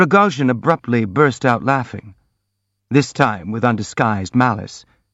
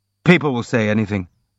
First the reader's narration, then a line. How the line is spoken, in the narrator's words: observed Rogojin coldly